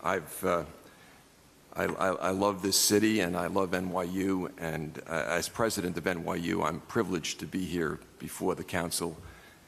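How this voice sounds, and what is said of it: New York accent. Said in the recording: “I'm a lifelong New Yorker. As you can tell from the accent,”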